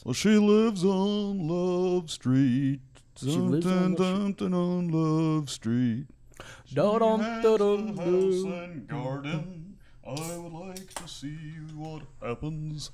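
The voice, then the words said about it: Sung imitation of another person's voice. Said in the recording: “my Morrison impression”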